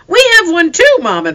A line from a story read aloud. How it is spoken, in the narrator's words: they cried